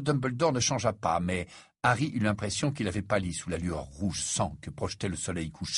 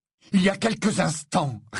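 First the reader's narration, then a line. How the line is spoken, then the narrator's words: Barely restrained shouting. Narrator (French): répondit Harry, qui avait les plus grandes difficultés à ne pas hurler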